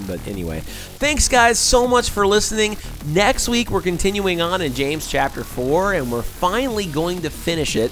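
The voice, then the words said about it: Hoarse, fading voice. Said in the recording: “If you've noticed a change in my voice as the show goes on ... I've been losing my voice as I've been talking on the show this week”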